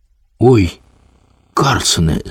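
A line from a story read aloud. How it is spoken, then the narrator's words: Frightened child calling out. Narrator (Ukrainian): злякано гукнув малий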